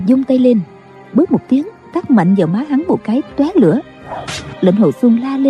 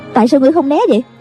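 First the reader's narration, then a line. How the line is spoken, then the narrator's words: Angry. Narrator (Vietnamese): Bà tức giận nói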